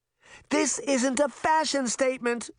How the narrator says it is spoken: Sabrina cried

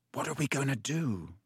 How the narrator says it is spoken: said Ron quietly in Harry's ear

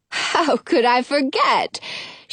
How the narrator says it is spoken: says with a laugh

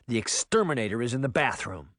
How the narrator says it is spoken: he snapped

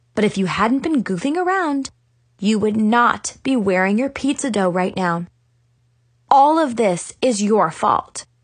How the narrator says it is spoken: said sternly

